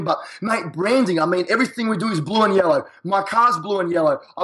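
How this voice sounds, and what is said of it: Australian accent. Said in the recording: “I'm an Australian in a foreign country. So my accent is very catchy.”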